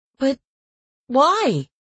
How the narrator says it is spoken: I asked desperately

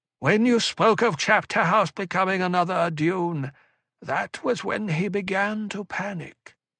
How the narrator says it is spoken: Belonda said, her voice mentat distant

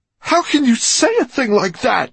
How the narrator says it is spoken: She shouted at Fenolio

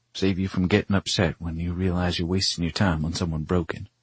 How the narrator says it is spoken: she mumbles

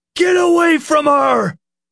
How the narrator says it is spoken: Nick shouted

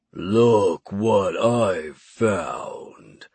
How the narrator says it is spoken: the creature rumbled in a deep baritone voice

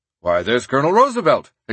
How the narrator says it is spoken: exclaimed McKinley

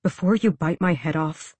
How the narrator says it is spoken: he said, keeping his voice quiet just in case

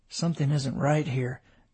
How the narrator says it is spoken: David muttered

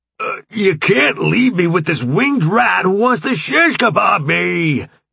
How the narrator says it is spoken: Jones shouted after him

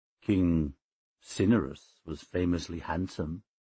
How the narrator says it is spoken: I said quietly

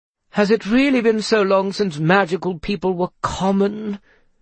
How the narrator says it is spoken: sighed

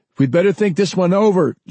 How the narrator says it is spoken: John cried

